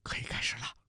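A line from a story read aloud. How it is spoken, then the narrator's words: Quiet. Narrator (Chinese): 陆明小声说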